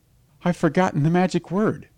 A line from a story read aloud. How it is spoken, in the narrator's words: stammered Gawain